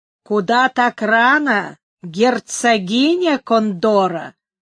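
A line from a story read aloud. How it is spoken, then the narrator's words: Plain. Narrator (Russian): спросил он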